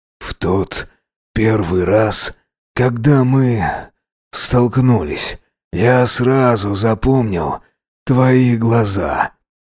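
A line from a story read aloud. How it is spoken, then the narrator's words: Moaning with long pauses. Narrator (Russian): простонал Макс, делая длинные паузы между словами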